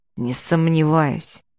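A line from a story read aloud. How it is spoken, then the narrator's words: Through gritted teeth. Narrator (Russian): процедил Рах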